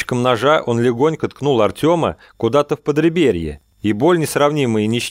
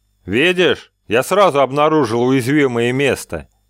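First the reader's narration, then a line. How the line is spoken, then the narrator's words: Pleased chuckle. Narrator (Russian): довольно хохотнул Стардах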